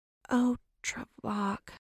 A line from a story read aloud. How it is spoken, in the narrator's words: Serafina groaned